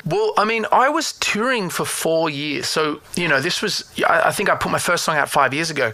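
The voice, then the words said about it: Mild Australian accent, slightly Americanized. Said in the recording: “Australian English ... You're starting to speak with an American accent ... I don't have a very thick accent. It's kind of very in, in between.”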